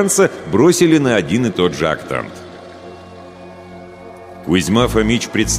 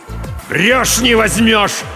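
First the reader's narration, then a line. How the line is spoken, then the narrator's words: Desperate yell. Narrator (Russian): заорал Кузьма Фомич, уже понимая, что еще как возьмет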